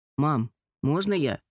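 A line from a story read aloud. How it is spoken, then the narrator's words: Plain. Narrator (Russian): спросил Алик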